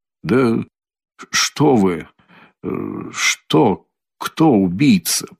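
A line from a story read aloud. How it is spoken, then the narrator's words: Barely audible mutter. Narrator (Russian): пробормотал Раскольников едва слышно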